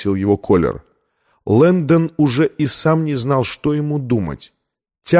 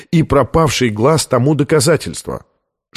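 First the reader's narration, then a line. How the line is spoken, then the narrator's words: Sharper than intended. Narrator (Russian): заявил он более резким тоном, нежели намеревался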